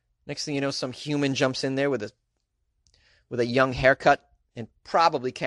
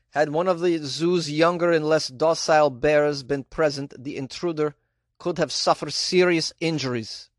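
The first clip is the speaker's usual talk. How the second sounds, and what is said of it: Put-on Polish accent. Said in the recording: “Is this a good Polish accent? I have no idea.”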